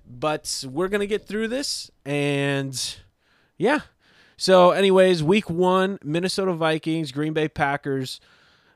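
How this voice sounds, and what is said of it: Rough, sick-sounding voice. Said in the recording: “my voice isn't the best right now, so bear with me”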